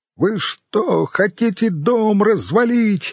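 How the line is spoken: Shouting over loud music. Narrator (Russian): закричала Ирон, безуспешно пытаясь перекричать удары тяжелого рока

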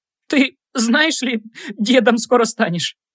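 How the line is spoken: Laughing then sobbing. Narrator (Russian): Рассмеялась она и опять разрыдалась

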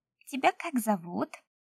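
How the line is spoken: Small child's voice. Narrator (Russian): опять спросил малыш детским голосом

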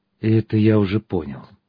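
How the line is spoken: Sighing. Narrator (Russian): он вздохнул

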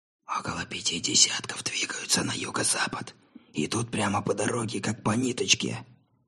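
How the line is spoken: Needless whisper. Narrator (Russian): прошептал Атчесон, хотя в шепоте уже не было никакой необходимости

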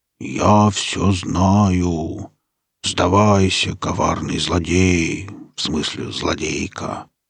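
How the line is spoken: Mournful bass voice. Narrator (Russian): Сказать ей траурным басом

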